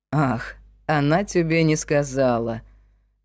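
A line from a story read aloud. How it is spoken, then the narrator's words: Mocking. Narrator (Russian): насмешливо произнес Крик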